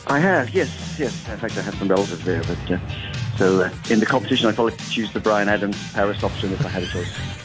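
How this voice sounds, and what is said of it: Irish accent. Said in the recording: “a bit of a Irish accent there ... Yes, there's an Irish accent. ... An Irish accent.”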